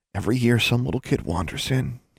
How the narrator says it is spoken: he whispered

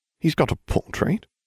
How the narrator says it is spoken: mumbling

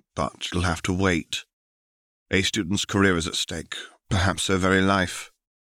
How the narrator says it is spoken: sighed Lupin

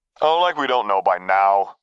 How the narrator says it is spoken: Razan dismissed lightly

